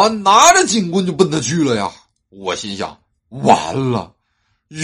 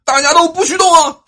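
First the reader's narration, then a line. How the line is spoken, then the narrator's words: Loud man's voice. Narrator (Chinese): 一个大哥大声的说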